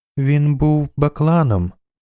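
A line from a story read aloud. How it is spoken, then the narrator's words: Slow speech. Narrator (Ukrainian): повільно промовила Цирі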